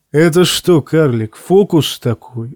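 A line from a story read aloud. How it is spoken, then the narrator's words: Laughing knight. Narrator (Russian): засмеялся рыцарь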